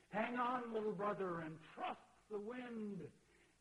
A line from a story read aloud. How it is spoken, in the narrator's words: the voice cried out